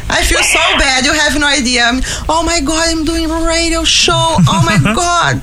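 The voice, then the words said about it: Brazilian-accented English. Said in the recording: “I love her accent. ... Oh, I know. Isn't it great? We can listen to it all day”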